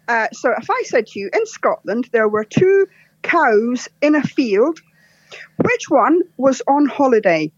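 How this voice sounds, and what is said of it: Scottish accent. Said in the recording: “if I'm telling a joke in Scots, I put on the Scottish accent”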